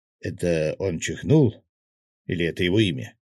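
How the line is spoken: Amused snort. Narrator (Russian): хмыкнул Свят

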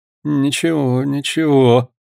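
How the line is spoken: Muttering. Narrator (Russian): пробормотал Паганель

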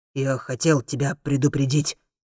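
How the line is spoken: Muttering. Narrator (Russian): бормочет Маргуль

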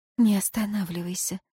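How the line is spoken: Whispered repetition. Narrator (Russian): повторила Ирейн шепотом

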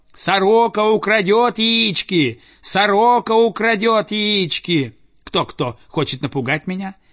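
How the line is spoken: Shouting. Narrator (Russian): он закричал

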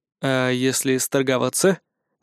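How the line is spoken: Quiet question. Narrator (Russian): негромко спросил я у Сида

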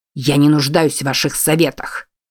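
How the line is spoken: Snapping retort. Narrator (Russian): огрызнулся Бент

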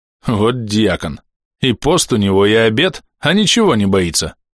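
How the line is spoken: Short guffaw. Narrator (Russian): хохотнул Сидоров

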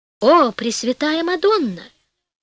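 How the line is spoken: King's exclamation. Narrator (Russian): воскликнул король

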